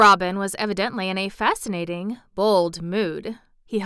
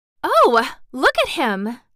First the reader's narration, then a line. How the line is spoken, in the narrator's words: exclaimed Mary